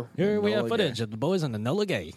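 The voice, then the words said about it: Old-timey news radio announcer voice. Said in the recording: “That was a good old-timey voice. ... News radio voice.”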